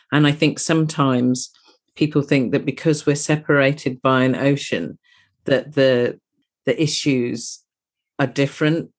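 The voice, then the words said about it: British accent. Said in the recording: “the leading voice for Black maternal health in the UK ... You can possibly tell from my accent that I'm from across the pond”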